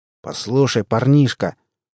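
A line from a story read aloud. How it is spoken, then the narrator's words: Angry general. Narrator (Russian): зло проговорил генерал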